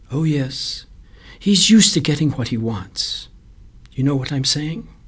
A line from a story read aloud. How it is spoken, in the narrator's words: She went on quietly